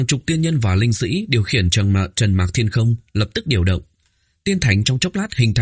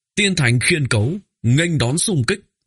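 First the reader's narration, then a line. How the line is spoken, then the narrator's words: Loud proclamation. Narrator (Vietnamese): một vị tiên nhân thuộc hệ lâu ban của Thông Thiên Các cao giọng hô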